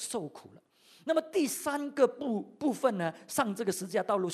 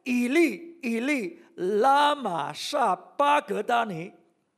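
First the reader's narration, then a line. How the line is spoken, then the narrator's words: Loud cry. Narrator (Chinese): 耶稣大声喊着说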